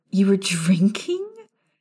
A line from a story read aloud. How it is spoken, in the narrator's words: Alice chuckled